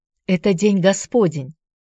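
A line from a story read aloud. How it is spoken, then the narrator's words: Sharp. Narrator (Russian): резко ответила Нел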